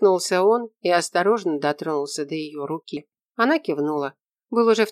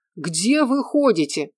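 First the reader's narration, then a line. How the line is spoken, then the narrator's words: Shout. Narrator (Russian): закричал он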